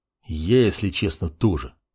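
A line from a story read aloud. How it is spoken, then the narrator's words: Mutter. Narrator (Russian): пробормотал маг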